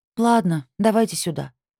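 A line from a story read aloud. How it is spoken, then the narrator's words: Sighing. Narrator (Russian): вздохнула я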